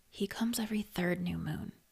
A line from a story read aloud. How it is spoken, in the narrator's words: she said quietly